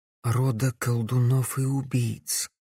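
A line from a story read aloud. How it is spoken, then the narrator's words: Quiet reply. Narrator (Russian): тихо ответила Камилла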